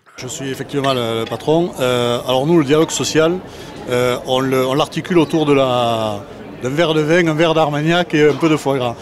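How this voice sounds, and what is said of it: Southwestern French accent. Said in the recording (French): “puisqu'on parle accent, allons voir un entrepreneur du Sud-Ouest”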